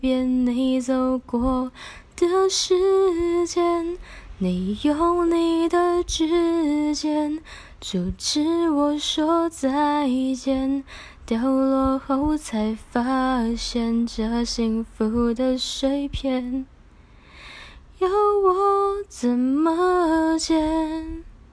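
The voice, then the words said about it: Singing quietly. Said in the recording (Chinese): “我会唱的比较小声一点”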